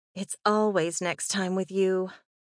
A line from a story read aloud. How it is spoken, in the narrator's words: sighed